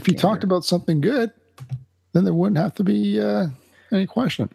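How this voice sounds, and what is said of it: Usual voice. Nothing is said of it.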